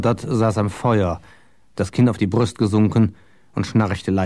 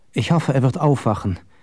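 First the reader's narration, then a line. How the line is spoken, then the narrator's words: Sighing. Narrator (German): seufzte Richmodis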